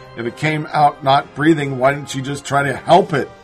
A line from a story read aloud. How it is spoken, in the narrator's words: prosecutor asked